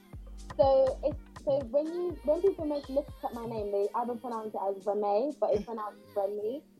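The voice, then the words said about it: British accent. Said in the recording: “check out the accent as well ... it's very British.”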